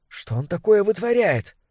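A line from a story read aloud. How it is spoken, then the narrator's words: Whispered question. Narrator (Russian): Кто-то рядом с Сюзанной спросил шепотом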